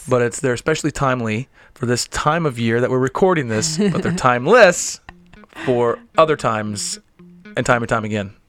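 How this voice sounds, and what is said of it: Strained, worn-out hoarse voice. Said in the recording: “My voice is a little shot”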